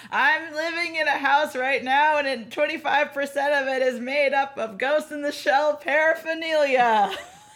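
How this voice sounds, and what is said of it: Imitates another person's voice. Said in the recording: “I'm gonna do a terrible Alex impression.”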